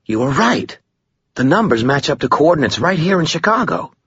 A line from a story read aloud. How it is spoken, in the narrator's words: he exclaimed